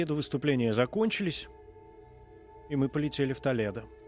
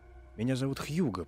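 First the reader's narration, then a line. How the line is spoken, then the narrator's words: Whisper. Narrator (Russian): прошептал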